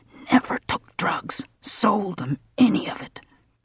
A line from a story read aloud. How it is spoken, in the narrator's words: Collie whispered